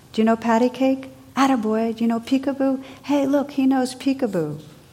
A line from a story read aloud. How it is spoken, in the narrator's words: Now the old bum was shouting from across the room